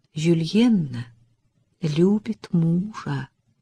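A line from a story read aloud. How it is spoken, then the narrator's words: Soft speech. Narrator (Russian): мягко произнесла Элизабет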